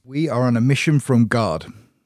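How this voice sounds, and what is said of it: Put-on accent. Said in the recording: “That was an accent.”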